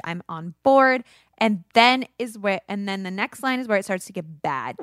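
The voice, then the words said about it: Kentucky accent. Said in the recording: “I have an accent. It's my Kentucky heritage.”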